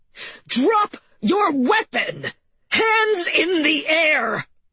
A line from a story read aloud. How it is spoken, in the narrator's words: M yelled again